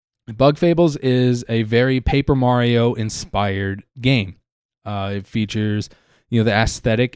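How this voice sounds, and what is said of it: Hoarse voice. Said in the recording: “my voice is getting a little hoarse ... been talking for really long and very harshly on my throat ... a little under the weather”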